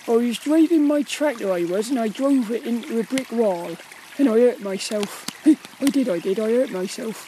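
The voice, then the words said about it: Put-on Cornish accent. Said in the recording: “You've got the Cornish. ... if you're talking like the, like the Cornish, and it goes off, it starts to lose its sort of Cornishness”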